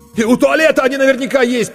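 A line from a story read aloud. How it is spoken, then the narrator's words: Near shout. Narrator (Russian): почти закричал Коля Корноухов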